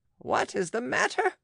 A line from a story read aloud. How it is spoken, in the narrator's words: cried Aunt Angelique, who had never seen a more piteous mien